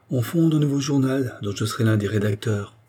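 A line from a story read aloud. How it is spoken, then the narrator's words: Plain. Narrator (French): dit-il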